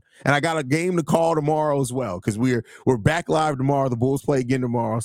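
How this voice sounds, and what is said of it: Hoarse, nearly lost voice. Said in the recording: “As you can tell, my voice is now gone.”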